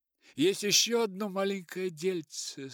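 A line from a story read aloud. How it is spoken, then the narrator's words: Hesitant, trailing off. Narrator (Russian): сказал он неуверенно и замолк в нерешительности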